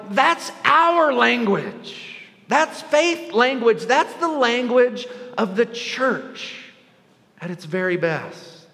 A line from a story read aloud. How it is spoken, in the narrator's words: yell